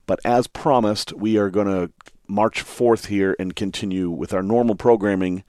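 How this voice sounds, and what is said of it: Hoarse voice. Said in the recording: “I'm a little bit hoarse this week”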